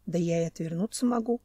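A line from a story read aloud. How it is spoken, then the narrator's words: Mumbling. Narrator (Russian): пробормотал Семен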